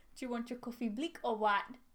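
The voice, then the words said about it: Put-on South African accent. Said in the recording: “Can you do a good South African accent?”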